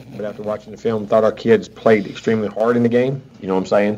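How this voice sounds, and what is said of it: Southern drawl. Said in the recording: “southern drawl white boy”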